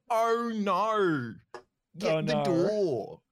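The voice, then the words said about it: Put-on Australian accent. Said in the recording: “the Australian accent that everyone's doing on TikTok”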